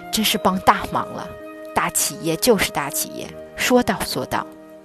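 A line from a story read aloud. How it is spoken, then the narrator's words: Grateful exclamation. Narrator (Chinese): 光谷院区的对接人看到产品及时送达，非常感叹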